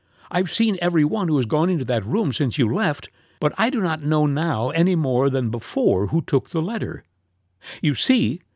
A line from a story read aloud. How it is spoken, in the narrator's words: he continued as I looked at him sharply